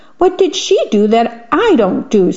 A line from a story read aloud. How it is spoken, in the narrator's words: said the man crossly